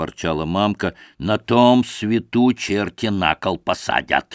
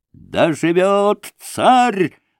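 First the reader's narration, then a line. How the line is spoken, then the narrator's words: Robbers shouting together. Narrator (Russian): закричали разбойники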